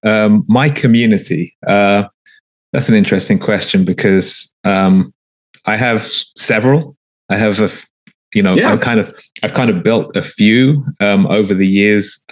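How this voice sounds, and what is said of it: London English accent. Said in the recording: “you can probably tell from my accent, I'm not from here... I was born and raised in London, England”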